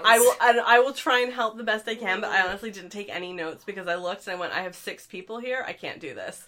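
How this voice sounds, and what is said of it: Voice sounds sick. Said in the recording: “I don't know if anybody can tell from my voice, but I have been pretty sick this week.”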